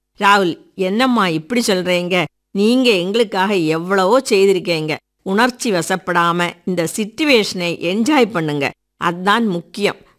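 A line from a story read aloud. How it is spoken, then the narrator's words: Choked, tearful voice. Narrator (Tamil): தழுதழுத்த குரலில் கூற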